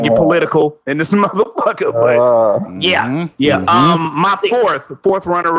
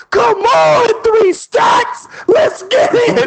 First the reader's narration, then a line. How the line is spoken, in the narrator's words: Corey yelling